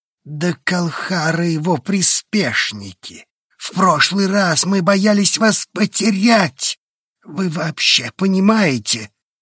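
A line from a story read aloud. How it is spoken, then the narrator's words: Voice breaking. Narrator (Russian): Голос сорвался, шумно выдохнул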